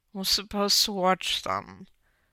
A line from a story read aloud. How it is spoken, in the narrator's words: Foggy sighed, burying his face in his husband's chest